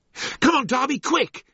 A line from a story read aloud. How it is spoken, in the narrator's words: he shouted